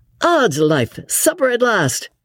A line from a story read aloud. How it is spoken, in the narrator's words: said Lord Antony merrily